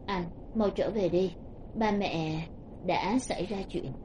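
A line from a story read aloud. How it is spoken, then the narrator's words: Low, hoarse, suppressed anguish. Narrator (Vietnamese): An Trạch bên kia điện thoại dùng thanh âm trầm thấp khàn khàn đè nén thống khổ nói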